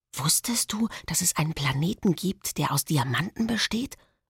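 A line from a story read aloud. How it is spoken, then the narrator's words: Whispered. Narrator (German): flüstere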